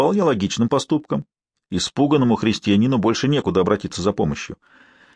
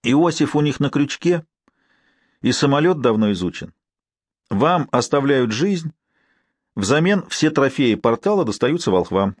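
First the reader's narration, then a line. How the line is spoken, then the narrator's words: Plain. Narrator (Russian): ответил Норман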